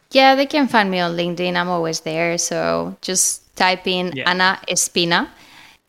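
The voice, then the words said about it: Spanish accent. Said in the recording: “I'm Spanish, obviously. You can find, I mean, you can clearly know this because of my accent.”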